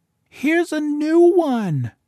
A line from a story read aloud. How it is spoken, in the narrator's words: The smallest child cried